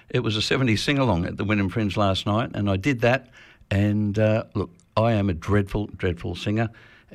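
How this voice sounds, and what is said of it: Slightly husky voice. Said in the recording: “my voice is a little bit husky”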